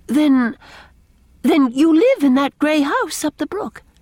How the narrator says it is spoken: she stammered

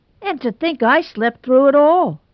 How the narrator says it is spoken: moaned Tommy Nelson, heartbrokenly

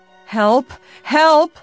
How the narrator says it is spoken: came Nancy's scream again, but this time it was nearer

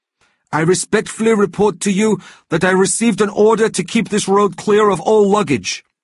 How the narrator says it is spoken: he almost shouted

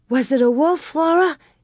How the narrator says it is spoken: Carrie gasped

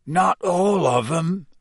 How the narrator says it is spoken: said Hagrid hoarsely

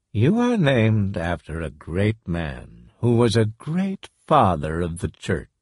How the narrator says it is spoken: he said softly

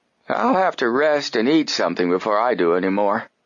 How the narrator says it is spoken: Herd Applegate said wearily

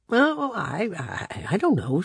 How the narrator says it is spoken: stammered

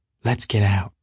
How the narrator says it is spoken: whispered Jordan

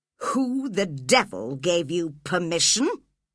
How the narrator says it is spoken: growled Heathcliff

